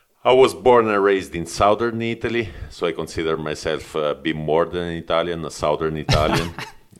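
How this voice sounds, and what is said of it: Italian accent. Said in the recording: “I'm Italian, clearly Italian, as you can probably understand from my accent.”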